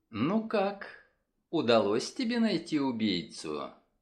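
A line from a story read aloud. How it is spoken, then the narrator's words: Sweet-voiced inquiry. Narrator (Russian): Сладким голоском полюбопытствовала она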